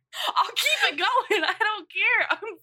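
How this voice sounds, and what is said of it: Southern US accent. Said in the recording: “My fucking dialect is coming out. My southern accent is coming out.”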